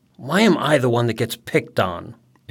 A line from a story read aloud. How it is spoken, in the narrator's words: Eric grumbles